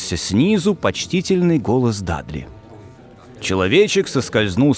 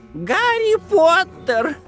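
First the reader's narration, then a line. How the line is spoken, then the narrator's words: Shrill exclamation, unexpected guest. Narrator (Russian): пронзительным голосом воскликнул нежданный гость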